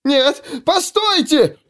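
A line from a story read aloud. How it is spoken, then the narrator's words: Shrill squeal. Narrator (Russian): взвизгнул он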